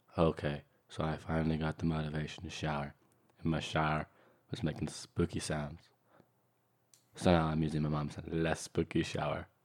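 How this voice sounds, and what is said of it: Flat monotone reading voice. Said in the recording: “I'm going to do this as monotone as I can.”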